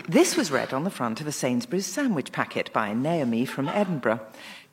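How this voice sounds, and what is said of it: Formal British radio announcer voice. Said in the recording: “I'm going to do my best Radio 4 announcer voice now”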